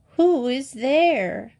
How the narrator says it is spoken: cried the grandmother

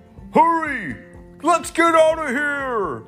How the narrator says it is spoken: bad guys shouted

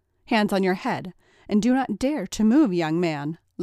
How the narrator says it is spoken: Lady Blackwell barked

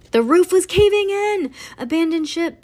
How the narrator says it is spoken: Bean hollered

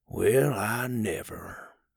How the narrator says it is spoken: he mumbled

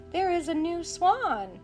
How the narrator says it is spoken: cried the boy

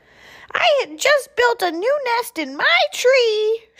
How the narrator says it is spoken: shrieked the bird

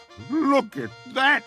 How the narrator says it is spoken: groaned the fiddler

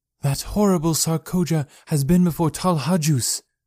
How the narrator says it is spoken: cried

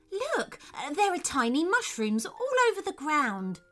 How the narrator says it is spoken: exclaimed Theodore

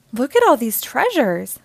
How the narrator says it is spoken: exclaimed Leah

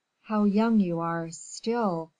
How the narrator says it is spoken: said the latter in a hollow voice

